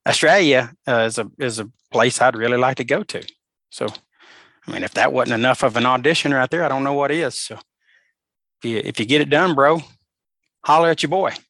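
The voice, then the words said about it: Southern voice slipping into Australian accent. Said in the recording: “I'm just loving your accent, like the Alabama Australian accent. ... Did some of my Australian accent get out”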